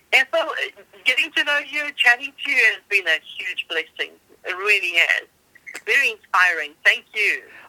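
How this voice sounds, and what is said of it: South African accent. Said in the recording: “South Africa ... hearing you speak ... I love the accent.”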